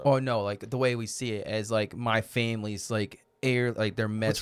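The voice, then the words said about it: Boston accent. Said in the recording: “What's this accent? ... Some Boston guy.”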